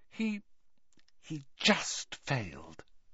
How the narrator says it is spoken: whispered Hermione

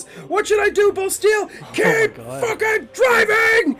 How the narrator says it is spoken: yells at him

